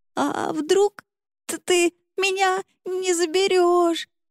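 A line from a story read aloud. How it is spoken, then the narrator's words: Stammering through sobs. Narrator (Russian): заикалась она от рыданий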